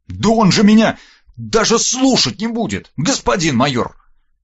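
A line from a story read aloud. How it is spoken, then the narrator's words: Indignant, restrained near-shout. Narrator (Russian): От возмущения Верт чуть не закричал, но вовремя спохватился и убавил громкость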